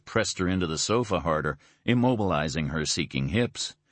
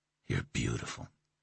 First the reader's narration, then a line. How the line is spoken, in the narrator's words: he said, his voice rough